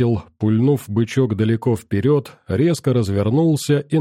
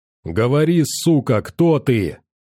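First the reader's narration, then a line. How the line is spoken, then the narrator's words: Yelling. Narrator (Russian): заорал я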